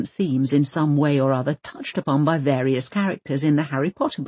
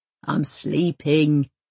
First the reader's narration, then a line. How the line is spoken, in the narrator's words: he grunts